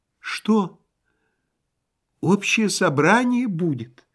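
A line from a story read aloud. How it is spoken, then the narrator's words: Thin high voice. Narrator (Russian): спросил Васисуалий Андреевич тоненьким голосом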